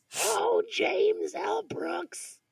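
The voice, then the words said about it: Marge Simpson cartoon character voice. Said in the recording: “in your Marge voice”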